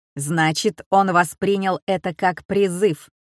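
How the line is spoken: Barking. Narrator (Russian): рявкнул Тесей

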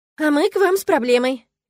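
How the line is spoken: Cheerful. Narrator (Russian): весело сообщила она

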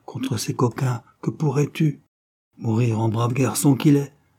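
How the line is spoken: Grave voice. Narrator (French): dit Stéphane d'une voix grave

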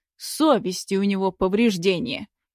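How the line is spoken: Scornful snort. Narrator (Russian): фыркнул Губанов

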